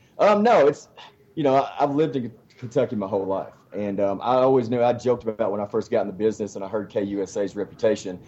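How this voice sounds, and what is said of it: Southern American accent. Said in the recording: “They can't understand my Southern accent.”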